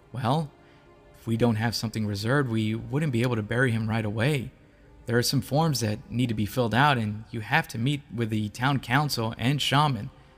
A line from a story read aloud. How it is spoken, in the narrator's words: She said calmly